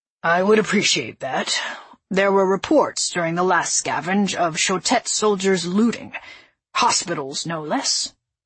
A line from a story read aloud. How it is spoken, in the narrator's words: responded gruffly